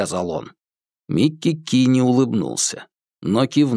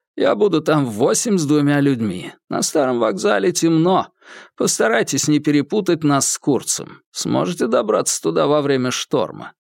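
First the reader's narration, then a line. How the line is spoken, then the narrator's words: Hoarse gurgling laugh. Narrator (Russian): Эмилио Гонзага рассмеялся хрипловатым булькающим смехом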